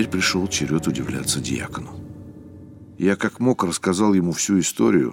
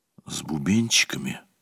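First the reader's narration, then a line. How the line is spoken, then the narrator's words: Whisper. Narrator (Russian): прошептал я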